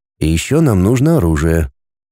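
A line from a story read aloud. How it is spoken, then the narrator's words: In a low voice. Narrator (Russian): добавил вполголоса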